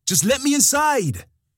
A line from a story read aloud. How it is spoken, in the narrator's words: I shouted, this time at the top of my lungs, desperation lingering in the edges of my voice